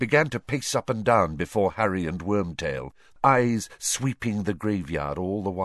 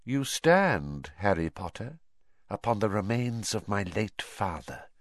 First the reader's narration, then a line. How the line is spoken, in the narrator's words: he hissed softly